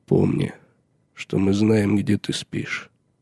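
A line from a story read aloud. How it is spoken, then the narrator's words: Quietly said. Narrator (Russian): негромко сказал Джон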